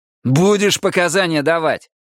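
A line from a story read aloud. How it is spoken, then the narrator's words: Barked. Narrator (Russian): рявкнул дежурный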